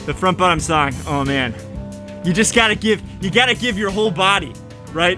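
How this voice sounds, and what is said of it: Out of breath, panting. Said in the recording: “little out of breath ... my heart is pumping, pumping”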